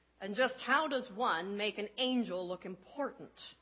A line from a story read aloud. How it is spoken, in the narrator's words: asked the woodcarver